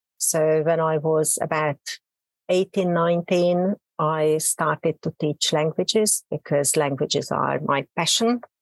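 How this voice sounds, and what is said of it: Hungarian accent. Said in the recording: “Probably you can hear from my accent. I'm a native Hungarian.”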